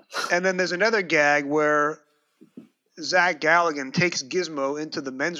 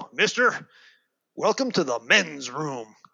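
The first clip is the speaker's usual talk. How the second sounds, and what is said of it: John Wayne impression. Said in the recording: “a John Wayne impersonator go”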